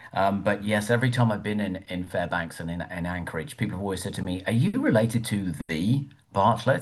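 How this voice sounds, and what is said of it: English accent. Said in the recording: “people can tell from my accent, I'm from England originally.”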